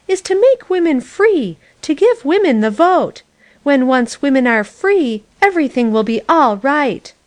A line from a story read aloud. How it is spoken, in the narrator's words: she howled